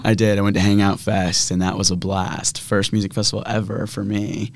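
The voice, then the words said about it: Hoarse, slightly lost voice. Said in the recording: “A little hoarse. My voice is a little gone.”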